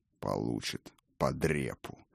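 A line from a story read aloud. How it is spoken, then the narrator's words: Low mutter, barely audible. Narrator (Russian): буркнул Один, но так, что слышала его одна лишь Райна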